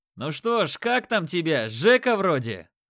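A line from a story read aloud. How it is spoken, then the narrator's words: Loud and condescending. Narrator (Russian): Рыжий Макс говорил громко и снисходительно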